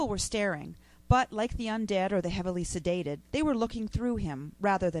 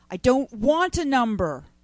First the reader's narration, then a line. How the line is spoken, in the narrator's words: Ray yelled